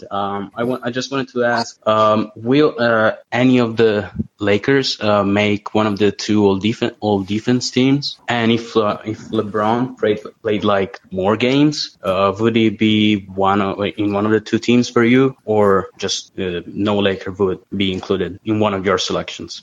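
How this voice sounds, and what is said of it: Italian-accented English. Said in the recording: “I'm Italian ... Sorry for the accent.”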